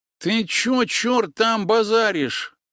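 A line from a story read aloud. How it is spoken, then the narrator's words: Nasal voice. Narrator (Russian): произнес еще один старший, с переломанным носом и, видимо, от этого гнусавивший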